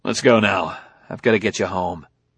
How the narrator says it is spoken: He said curtly

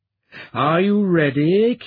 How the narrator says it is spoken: Kira asked, her tone dripping with disdain

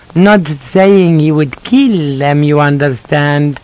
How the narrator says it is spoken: She giggled

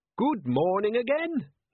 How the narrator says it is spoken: he said brightly

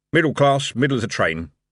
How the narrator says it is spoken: the guard, saying gruffly

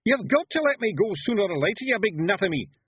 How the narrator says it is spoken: yelled Rob Anybody

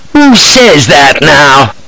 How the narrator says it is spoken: cries this barrack room lawyer

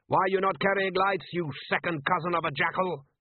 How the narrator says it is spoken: Somewhere close in the wet darkness, a voice shouted

